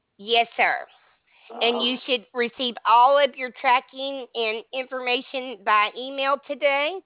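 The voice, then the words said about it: Speaker's own accent. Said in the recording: “it's my accent.”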